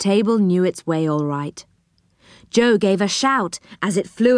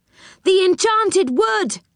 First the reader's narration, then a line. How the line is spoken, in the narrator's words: he cried